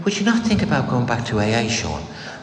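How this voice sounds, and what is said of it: Imitated Irish accent. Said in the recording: “in her little Irish accent”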